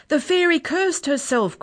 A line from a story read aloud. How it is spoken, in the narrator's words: cried Lex